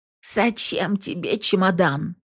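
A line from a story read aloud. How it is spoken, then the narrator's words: Hoarse rasp. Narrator (Russian): хрипит она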